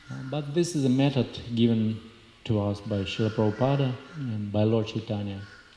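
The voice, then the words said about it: Thick Russian accent. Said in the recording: “my thick Russian accent”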